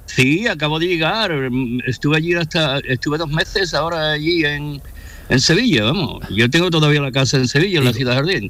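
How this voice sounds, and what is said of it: Sevillian Andalusian Spanish accent. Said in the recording (Spanish): “Tiene el acento, tiene el acento. Del bueno, sevillano”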